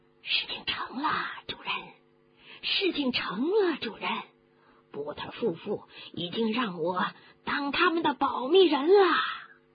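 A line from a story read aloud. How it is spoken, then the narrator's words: Excited low muttering. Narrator (Chinese): 有人在兴奋的低声的嘀咕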